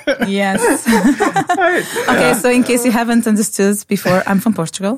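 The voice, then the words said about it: Portuguese accent. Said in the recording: “the Portuguese accent”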